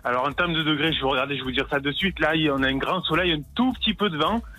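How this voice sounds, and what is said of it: Regional southern French accent. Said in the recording (French): “ce bel accent”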